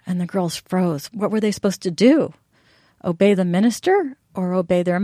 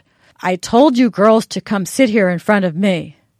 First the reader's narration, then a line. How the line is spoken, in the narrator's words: the minister boomed